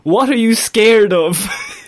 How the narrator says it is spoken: He shouted to the officer

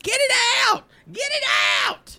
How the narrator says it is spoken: she screams

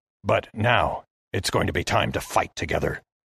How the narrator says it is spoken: he hissed to me

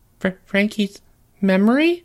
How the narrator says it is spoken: Jeffrey squeaked

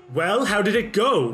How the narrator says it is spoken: the lady snaps and is like

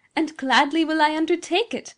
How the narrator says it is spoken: cried again the rich tones of the young lady

